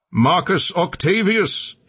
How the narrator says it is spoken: he shouted

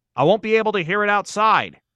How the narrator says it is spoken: he shouted back

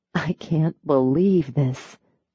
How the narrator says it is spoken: she whispered

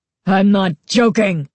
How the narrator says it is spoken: Carly Beth roared

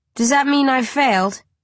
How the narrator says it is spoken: I ask bitterly

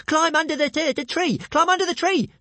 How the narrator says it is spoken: screeched Toothless

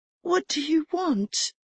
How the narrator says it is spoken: Her voice came out a whisper

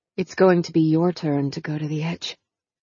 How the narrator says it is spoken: she said in a low, husky voice

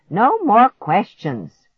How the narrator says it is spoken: Grandma shouted to him

